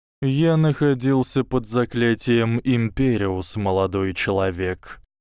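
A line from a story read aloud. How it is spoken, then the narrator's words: Tired reply. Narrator (Russian): устало ответил Люциус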